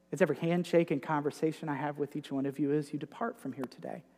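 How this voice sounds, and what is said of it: Northern US Yankee accent. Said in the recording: “my Yankee accent”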